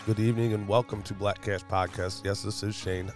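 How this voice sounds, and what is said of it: Congested voice from a cold. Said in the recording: “I just am fighting a cold, so my voice is all screwed up.”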